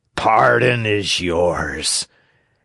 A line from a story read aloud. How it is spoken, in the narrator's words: answered Fire Eater, and sighing